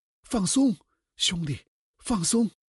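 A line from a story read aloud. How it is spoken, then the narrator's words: Shouting. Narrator (Chinese): 另一个嚷道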